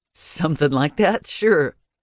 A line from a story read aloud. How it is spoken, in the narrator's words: Sebastian chuckled